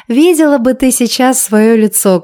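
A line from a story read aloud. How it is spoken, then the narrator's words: Speaking through laughter. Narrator (Russian): кое-как сквозь смех произнесла подруга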